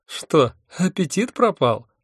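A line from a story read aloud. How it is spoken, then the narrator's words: Mocking question. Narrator (Russian): насмешливо спросил Вурундшундба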